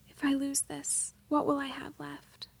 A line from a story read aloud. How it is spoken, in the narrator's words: whispered